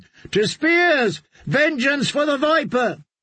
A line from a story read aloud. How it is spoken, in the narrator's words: a third of them were shouting